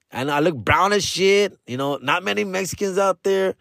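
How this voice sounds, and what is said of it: Thick LA Latino accent. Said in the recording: “I have a thick LA accent.”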